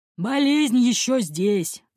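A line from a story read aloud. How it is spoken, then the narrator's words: Sigh, bearded man. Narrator (Russian): вздохнул пегобородый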